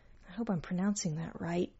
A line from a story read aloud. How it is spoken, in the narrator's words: he murmured half to himself